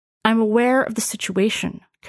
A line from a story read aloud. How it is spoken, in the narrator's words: Commander Wilker replied